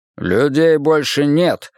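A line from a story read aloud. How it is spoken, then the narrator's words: Irritated curt remark. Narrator (Russian): раздраженно бросил Симмонс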